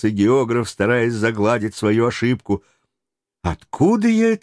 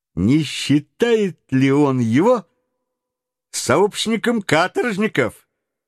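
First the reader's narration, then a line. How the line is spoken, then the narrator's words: Incautious exclamation. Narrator (Russian): неосторожно воскликнул Паганель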